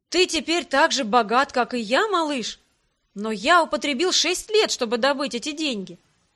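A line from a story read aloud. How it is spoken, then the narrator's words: Exclamation. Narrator (Russian): Гриб воскликнул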